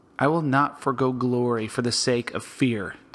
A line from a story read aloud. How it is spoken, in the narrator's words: David said